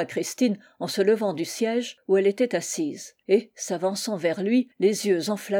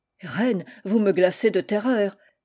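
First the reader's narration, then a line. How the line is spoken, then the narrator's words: Frightened stammer. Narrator (French): balbutia l'Italien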